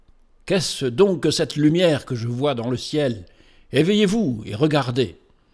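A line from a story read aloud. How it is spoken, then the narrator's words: Watchman crying out. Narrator (French): celui qui veillait sur le toit de l'hôtellerie s'écria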